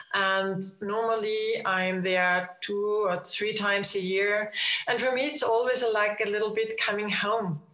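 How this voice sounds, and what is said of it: Non-native accented English. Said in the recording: “You can hear it in my accent and my imperfect English”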